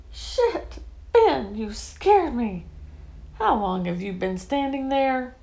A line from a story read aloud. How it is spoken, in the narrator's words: I exclaimed